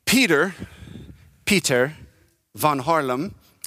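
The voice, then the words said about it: Poor Dutch accent, sounds Jamaican. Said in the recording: “that's my Dutch accent that I was trying, which I'm terrible at. It sounded more Jamaican”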